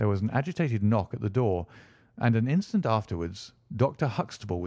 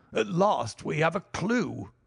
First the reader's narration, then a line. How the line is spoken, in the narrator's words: he cried